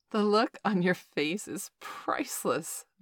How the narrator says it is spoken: Valerie giggled

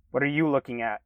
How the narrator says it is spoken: a loud voice exclaimed from behind me

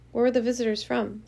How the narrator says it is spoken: Father asked

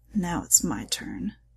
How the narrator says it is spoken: he growled

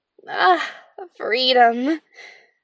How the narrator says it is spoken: sighed

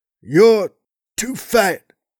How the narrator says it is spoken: Flair grunted

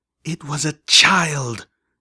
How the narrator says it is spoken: Velvet Remedy hissed

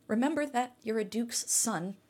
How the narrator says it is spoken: Jessica said

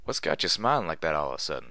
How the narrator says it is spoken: chuckled

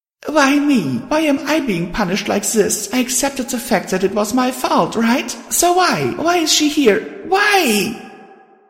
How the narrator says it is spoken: I screamed inside

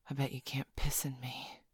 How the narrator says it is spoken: she said, her voice husky

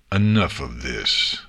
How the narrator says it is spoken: a voice snarled from the back of the room

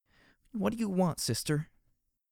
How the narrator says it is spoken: Glory begged the question between her tears

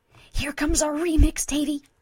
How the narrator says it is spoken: Vinyl says excitedly

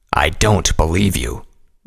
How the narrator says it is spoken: Vanguard growled

